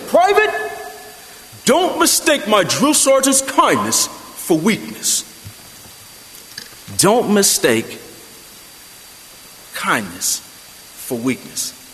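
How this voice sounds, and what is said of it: Imitated Brooklyn accent. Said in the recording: “in his Brooklyn accent ... I'm not going to imitate, you know what? I don't care ... So it goes like this”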